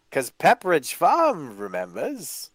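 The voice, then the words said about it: Pepperidge Farm commercial impression. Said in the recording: “good little impression.”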